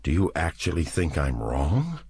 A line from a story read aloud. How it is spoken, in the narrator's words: he asked in an incredulous voice